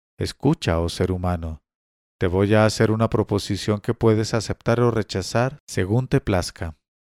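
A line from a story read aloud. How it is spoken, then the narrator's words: Old woman, low voice. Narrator (Spanish): una vieja, le dijo en voz baja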